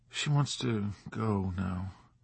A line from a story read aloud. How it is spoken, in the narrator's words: he said in a faint, strange voice